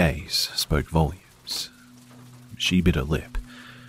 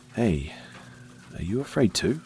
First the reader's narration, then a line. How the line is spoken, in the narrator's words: I asked quietly